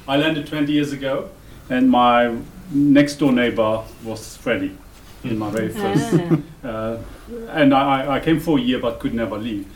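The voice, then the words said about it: Luxembourgish accent. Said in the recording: “The accent is from Luxembourg, very small country.”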